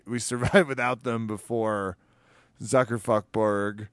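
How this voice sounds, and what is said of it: Talk radio voice. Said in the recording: “my talk radio voice is really coming out”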